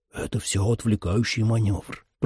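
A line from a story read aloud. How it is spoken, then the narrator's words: Whisper. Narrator (Russian): прошептал Трой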